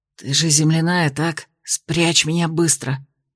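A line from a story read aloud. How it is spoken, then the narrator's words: Hissed. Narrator (Russian): прошипел он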